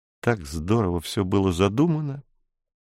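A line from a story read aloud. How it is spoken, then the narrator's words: Sad. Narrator (Russian): сказала Анка грустно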